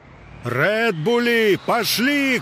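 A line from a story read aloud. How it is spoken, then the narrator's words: Shouted. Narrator (Russian): крикнул Гук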